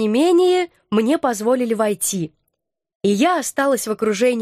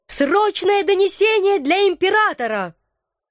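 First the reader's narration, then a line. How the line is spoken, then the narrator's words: Yelling at full voice. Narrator (Russian): заорала в полный голос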